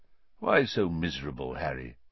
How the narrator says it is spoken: he said quietly

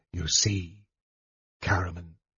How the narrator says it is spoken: he said coldly

